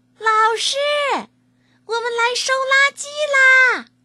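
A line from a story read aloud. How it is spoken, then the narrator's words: Shrill shout. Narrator (Chinese): 栀子尖着嗓子叫了起来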